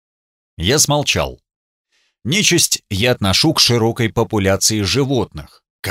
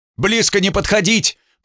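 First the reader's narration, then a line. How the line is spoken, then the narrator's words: Shout. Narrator (Russian): прокричал Гунтер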